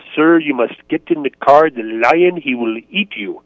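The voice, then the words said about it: Imitated Tswana-accented English. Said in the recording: “in her Tshwana accent”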